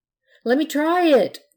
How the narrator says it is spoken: the pirate begged

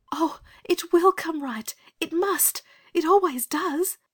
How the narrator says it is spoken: said Anthea desperately

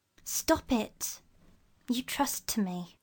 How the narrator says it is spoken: he whispered

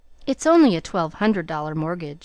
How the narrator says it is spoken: said Rebecca

